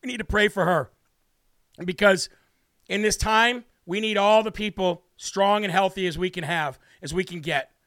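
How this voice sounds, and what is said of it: Choked-up, emotional voice. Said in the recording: “getting a little choked up”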